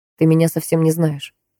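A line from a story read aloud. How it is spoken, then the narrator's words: Cold. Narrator (Russian): холодно произнес Микаэль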